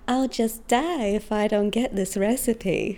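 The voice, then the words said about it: Put-on Southern American accent. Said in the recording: “Did I get my Southern accent right? ... I think you did all right for a Russian”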